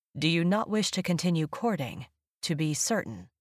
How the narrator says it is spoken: In a flat voice, as if he didn't wish to reveal his preference either way, he asked

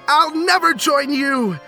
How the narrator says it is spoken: Tugs shouted

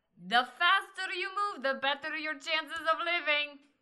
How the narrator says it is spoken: Agata yells

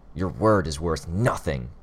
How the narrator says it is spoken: Bitch spat the words

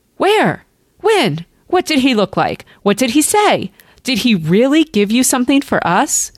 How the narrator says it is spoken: Mary and Laura cried

